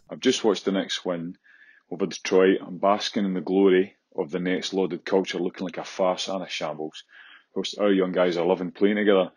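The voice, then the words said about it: Thick Scottish accent. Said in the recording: “This is a thick Scottish accent ... It's not somebody faking a Scottish accent ... Is a real deal here”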